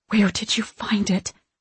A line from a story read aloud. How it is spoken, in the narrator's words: Mom whispers, shocked